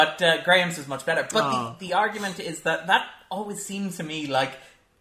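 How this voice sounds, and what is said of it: Usual voice. Nothing is said of it.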